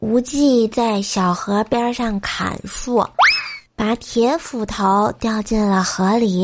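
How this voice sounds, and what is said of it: Usual voice. Nothing is said of it.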